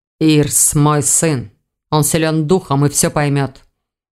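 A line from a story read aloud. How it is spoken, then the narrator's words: Muffled, hollow. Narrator (Russian): глухо ответил Элгар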